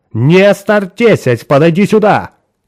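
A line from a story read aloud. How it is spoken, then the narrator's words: Shout. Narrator (Russian): крикнула она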